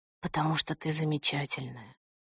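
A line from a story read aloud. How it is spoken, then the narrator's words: Whisper. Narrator (Russian): шепнул он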